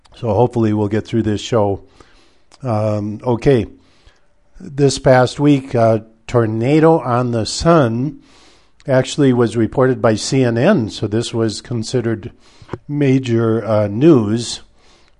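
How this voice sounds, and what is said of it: Congested, slightly weak voice. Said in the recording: “I'm fighting a bit of a congestion, so if my voice sounds a little weak, that's because it is.”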